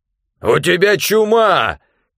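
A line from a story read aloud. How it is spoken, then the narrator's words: Shouting. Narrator (Russian): крикнул он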